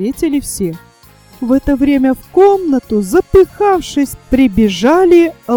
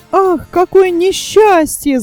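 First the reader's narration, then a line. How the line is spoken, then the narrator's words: Group shouting. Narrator (Russian): закричали они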